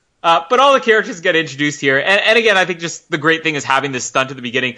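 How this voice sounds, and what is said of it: Usual voice. Nothing is said of it.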